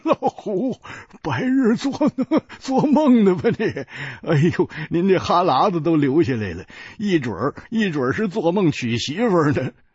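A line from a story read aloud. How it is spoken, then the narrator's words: Laughing loudly. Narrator (Chinese): 胖子大笑着说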